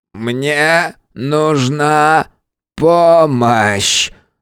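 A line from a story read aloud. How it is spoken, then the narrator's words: Crackling, static-laden creak. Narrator (Russian): с помехами проскрипел Регулус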